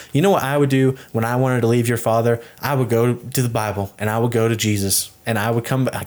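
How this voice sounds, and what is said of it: Put-on Southern accent. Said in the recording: “I can't even talk like this without going into the Southern accent.”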